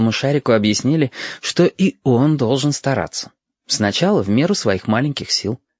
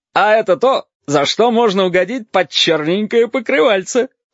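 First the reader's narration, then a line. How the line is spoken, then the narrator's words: Chuckle. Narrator (Russian): хохотнул красный шар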